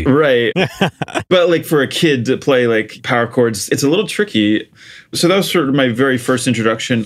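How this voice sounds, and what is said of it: American accent. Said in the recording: “you can probably tell I have an American accent”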